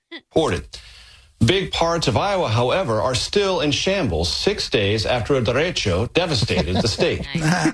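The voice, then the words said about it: News anchor rolling his R's. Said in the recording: “a good pop-up accent ... here comes the accent ... Think he always rolls his R's?”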